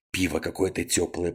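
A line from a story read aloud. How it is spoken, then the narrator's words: Grumbling. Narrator (Russian): проворчал он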